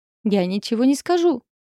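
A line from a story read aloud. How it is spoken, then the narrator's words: Dwarf yelling. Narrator (Russian): орал карлик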